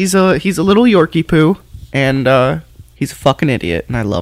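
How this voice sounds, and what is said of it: Usual voice. Nothing is said of it.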